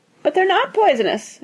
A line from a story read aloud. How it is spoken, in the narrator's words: cried Mrs